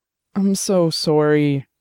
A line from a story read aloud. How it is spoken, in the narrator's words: said, his voice cracking